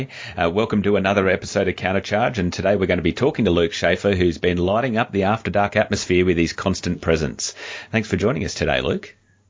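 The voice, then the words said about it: Australian accent. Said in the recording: “you do hear two delightful Australian accents today”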